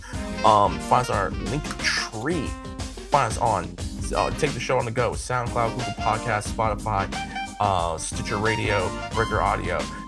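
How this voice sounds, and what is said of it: Tired, monotone voice. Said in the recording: “monotone as hell ... I'm really tired. I only got an hour of sleep”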